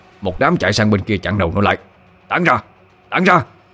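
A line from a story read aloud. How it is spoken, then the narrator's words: Shouting. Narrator (Vietnamese): Mo Lạng quát lên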